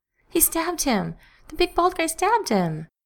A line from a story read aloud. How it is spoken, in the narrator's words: She sobbed incoherently